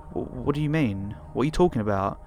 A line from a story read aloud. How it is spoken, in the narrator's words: I just kept stammering